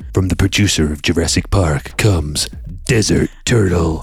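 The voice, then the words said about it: Dramatic movie trailer voice. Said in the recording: “my movie trailer voice”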